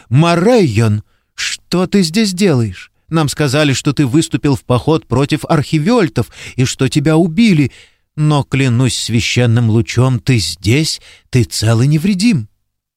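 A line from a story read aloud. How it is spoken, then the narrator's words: Exclaimed. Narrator (Russian): она воскликнула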